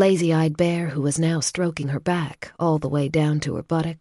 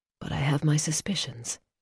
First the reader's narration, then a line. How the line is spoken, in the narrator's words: she murmured